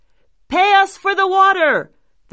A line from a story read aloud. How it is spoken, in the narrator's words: they cried